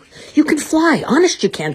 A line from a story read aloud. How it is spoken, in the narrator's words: Timothy shouted, as he and Dumbo began to fall